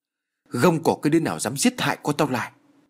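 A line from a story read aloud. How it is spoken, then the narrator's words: Thunderous shout. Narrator (Vietnamese): lão hội đồng quát như sấm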